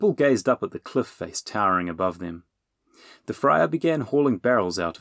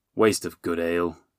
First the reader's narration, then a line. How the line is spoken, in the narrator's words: the friar grumbled